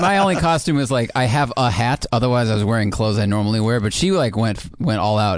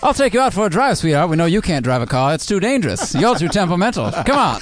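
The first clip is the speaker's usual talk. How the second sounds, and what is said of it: Put-on mid-Atlantic accent. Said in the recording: “We were doing voices the whole time ... that mid-Atlantic accent”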